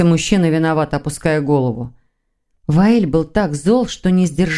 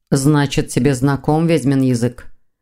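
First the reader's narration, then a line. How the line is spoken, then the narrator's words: Growl. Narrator (Russian): прорычал Ваэль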